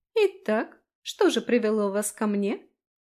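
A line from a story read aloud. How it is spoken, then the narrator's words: Girl's slightly mocking question. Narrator (Russian): Чуть насмешливо поинтересовалась девочка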